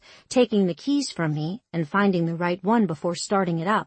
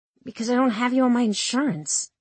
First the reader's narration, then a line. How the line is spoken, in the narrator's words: I mumbled